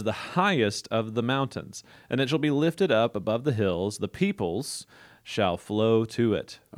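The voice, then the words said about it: Put-on radio announcer voice. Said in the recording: “I had my radio voice on.”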